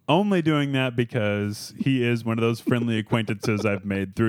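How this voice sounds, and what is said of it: Usual voice. Nothing is said of it.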